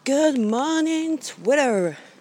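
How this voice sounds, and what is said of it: Put-on American accent. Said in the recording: “I don't know where I was going with that American accent”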